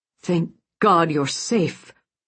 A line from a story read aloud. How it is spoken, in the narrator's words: he said, his voice filled with emotion